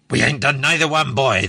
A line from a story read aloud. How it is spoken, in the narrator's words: the captain snapped